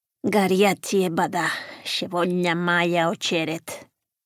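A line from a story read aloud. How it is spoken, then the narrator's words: Grumbled in broken Russian. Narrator (Spanish): gruñó Irina desde la litera superior en un ruso mal hablado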